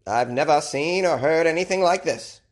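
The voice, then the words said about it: Put-on Maine accent. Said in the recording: “I don't know why I gave him a Maine accent ... People in Michigan, they don't speak like this.”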